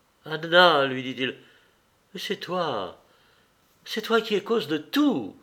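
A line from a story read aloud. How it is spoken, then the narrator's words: Tearful, enraged, desperate cry. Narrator (French): s'écria-t-elle, des larmes de rage et de désespoir dans la voix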